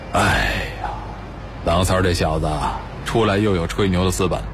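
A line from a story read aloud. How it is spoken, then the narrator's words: Sighing. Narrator (Chinese): 山林忽然叹了口气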